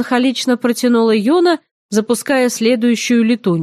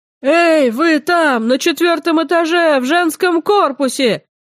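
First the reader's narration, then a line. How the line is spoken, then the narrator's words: Hoarse yell from below. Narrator (Russian): заорал снизу хриплый голос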